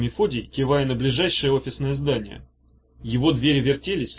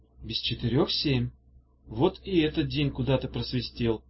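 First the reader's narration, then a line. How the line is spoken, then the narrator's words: Sad remark. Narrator (Russian): грустно заметила Даф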